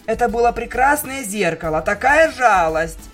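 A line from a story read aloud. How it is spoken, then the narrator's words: Screamed in panic. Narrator (Russian): в панике завопила Рарити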